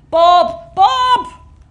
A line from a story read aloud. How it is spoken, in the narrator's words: Eddie shouted through the mouth of the balaclava